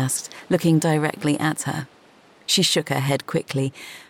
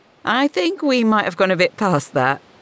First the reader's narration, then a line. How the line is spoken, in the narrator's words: giggled